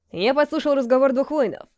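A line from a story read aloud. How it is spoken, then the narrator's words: Plain. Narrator (Russian): сказал Мартин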